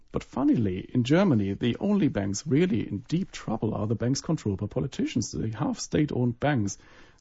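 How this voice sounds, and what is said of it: German accent. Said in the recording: “as you would have picked up from my accent, I'm German”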